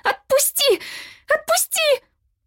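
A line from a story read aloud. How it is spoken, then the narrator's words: Screamed. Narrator (Russian): Шэрон закричала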